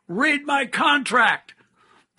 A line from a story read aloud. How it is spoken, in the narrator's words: over his shoulder yelled out